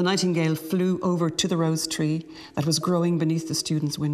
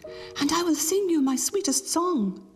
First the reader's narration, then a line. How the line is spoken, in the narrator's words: she cried